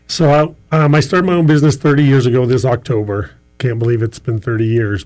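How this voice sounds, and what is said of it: Rich, pleasant radio-style voice. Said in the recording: “You have a great radio voice. ... you have a good radio voice”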